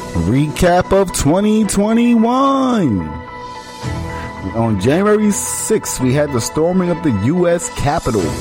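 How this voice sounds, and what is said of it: News anchor voice. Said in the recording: “Put on your news anchor voice.”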